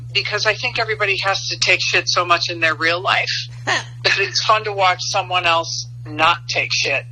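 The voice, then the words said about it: Chicago accent. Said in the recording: “there is no losing this Chicago accent.”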